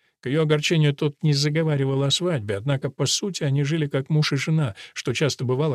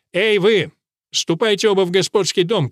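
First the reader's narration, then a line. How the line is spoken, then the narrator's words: Shout. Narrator (Russian): крикнул Нейт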